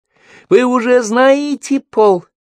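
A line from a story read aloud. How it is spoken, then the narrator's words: High squeaky voice. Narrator (Russian): спросила она таким высоким голоском, словно только что подышала гелием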